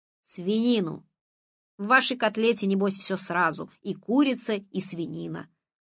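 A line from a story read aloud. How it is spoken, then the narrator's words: Stern reply. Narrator (Russian): строго ответил Моня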